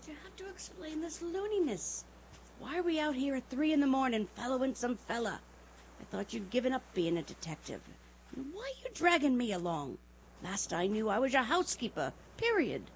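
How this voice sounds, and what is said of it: Whispering. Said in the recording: “I told you to whisper, didn't I now? ... all right, I'll whisper.”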